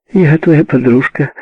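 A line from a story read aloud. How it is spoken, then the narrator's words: Cheerful. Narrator (Russian): весело сказала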